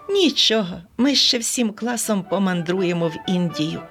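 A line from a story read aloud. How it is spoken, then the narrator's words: Plain. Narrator (Ukrainian): сказала Оленка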